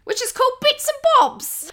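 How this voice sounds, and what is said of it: Put-on British accent. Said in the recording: “Your British accent has all of my ancestors rolling in their graves.”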